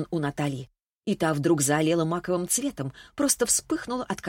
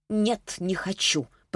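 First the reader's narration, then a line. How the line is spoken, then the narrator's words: Muttered. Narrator (Russian): пробормотала она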